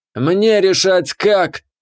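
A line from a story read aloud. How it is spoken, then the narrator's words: Priestess growling. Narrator (Russian): прорычала жрица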